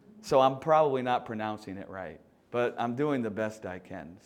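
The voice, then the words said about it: Southern American accent. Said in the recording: “I'm from the South in America. I don't know if you can tell, I have a funny accent.”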